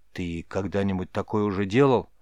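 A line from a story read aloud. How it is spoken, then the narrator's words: Quiet private question. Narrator (Russian): Тихо, чтоб слышал только Рис, спросил Мрагорн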